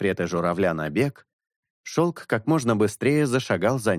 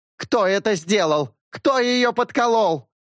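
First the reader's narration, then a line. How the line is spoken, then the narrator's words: Roar. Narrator (Russian): взревела Орхидея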